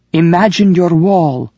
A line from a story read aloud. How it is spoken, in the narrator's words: Iris shouted